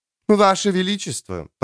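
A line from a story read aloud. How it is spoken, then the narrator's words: Cooing countess. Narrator (Russian): проворковала графиня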